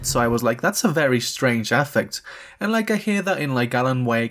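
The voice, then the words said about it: Non-American accent. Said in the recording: “I'm not American if it's not obvious from my accent”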